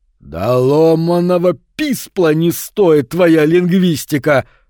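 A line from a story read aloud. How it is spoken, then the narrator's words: Thundered. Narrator (Russian): прогремел Мтыкл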